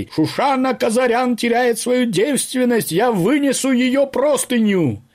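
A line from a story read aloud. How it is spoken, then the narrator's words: Herald-like proclaiming shout. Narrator (Russian): Параджанов закричал, как средневековый глашатай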